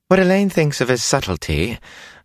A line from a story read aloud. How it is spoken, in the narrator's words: Bellavere said sweetly